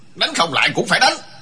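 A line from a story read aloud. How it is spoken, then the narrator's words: Angry old man. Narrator (Vietnamese): Lão già cao tức giận nói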